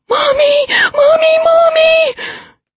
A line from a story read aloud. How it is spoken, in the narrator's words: She was screaming